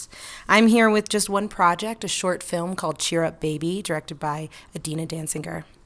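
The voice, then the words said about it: Hoarse, strained voice. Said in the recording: “I've already lost my voice at Sundance.”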